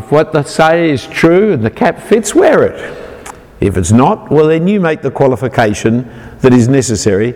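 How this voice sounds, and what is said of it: Australian accent. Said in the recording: “I'm an Australian... I'm a Sydney sider... I hope if you understand my accent.”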